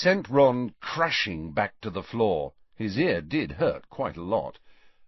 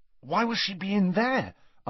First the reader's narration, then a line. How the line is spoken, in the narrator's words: asked Ron anxiously